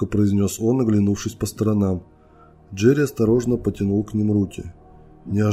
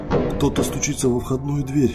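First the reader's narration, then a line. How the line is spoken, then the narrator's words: Boy whispering. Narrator (Russian): шепотом произнес мальчик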